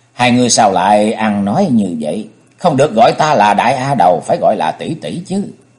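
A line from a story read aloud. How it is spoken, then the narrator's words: Smiling, playful. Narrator (Vietnamese): Nàng mỉm cười nói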